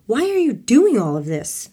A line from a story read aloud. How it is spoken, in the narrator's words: Maryanne shouted